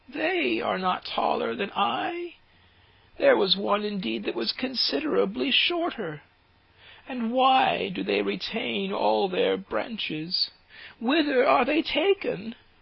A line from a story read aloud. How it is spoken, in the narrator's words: chirped the sparrows